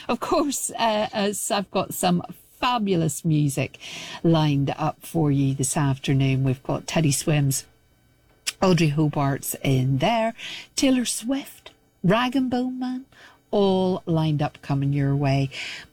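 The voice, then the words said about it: Croaky voice. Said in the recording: “my voice is starting to go croaky.”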